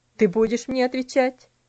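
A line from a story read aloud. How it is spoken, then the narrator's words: Stern question. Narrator (Russian): спросил он строгим голосом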